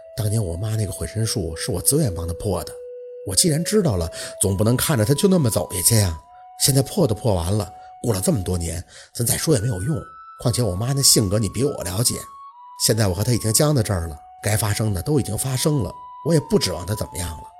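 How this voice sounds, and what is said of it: Speaking softly, quietly. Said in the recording (Chinese): “小声的说着”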